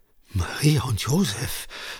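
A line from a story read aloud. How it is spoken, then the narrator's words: Frightened stammer. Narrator (German): stammelte Franziska erschreckt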